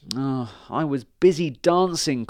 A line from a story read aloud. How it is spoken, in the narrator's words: cried the grasshopper